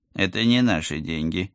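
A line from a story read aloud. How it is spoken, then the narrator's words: Stern reminder. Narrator (Russian): строго напомнил агент 013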